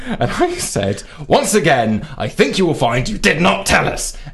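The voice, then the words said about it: Agitated, worked-up tone. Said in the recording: “I'm clearly getting worked up here. That last bit, that was my tone of voice.”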